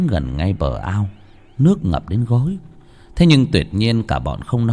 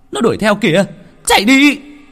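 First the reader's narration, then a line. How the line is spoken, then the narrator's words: Group yelling in panic. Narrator (Vietnamese): cả bọn hét toáng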